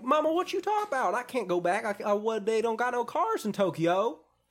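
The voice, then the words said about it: Thick put-on Southern US accent. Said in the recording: “a very, very thick southern accent. He's from Alabama. So thick.”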